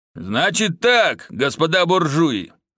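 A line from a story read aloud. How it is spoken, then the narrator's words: Loud bellow. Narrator (Russian): гаркнул Иваныч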